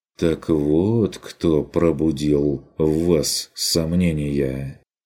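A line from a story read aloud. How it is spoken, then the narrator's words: Sympathetic drawl. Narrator (Russian): протянул Курт сочувствующе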